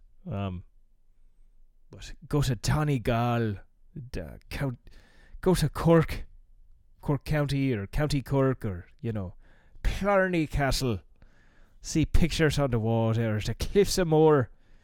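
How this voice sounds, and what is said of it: Bad put-on Irish accent. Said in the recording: “I'm going to try to stop doing a horrible Irish accent. And muscle through in my normal voice”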